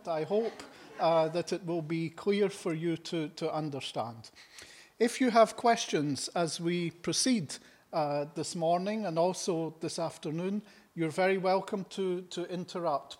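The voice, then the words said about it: Scottish accent. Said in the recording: “My presentation will be in English with a Scottish accent.”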